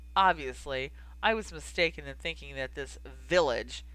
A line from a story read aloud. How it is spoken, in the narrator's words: he spat out the word as though it was the worst insult he could come up with